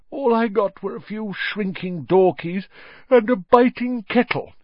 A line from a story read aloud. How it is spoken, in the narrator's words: yawned Mr